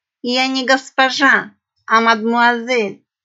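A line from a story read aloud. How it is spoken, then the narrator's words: Sullen snapping, female. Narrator (Russian): хмуро огрызнулась пиратка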